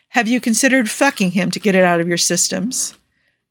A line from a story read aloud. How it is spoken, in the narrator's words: Nikki laughs sharply